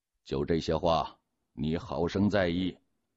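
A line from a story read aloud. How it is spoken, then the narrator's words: Cold, tight-lipped. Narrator (Chinese): 他就绷紧了嘴唇，冷冷的又说了句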